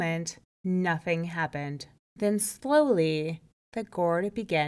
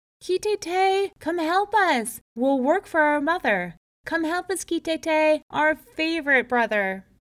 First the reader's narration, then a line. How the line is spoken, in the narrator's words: they called out one last time